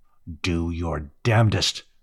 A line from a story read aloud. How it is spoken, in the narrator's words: he growled at whatever might be in the dark